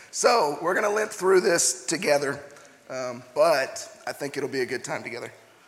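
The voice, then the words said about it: Partly lost, strained voice. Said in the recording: “if you can't tell, I've lost my voice just a little bit ... I lost my voice last night”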